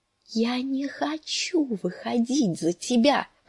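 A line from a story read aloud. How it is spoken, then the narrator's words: Moaning. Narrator (Russian): простонала Санса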